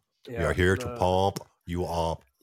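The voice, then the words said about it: Hans and Franz impression. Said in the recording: “Hans and Franz”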